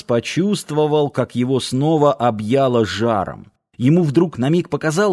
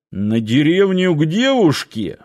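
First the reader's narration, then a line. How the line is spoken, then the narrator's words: Snorting scoff. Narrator (Russian): хмыкнул Парсыкин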